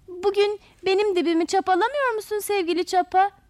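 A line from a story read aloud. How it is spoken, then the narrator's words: Shouting together. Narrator (Turkish): diye bağırışarak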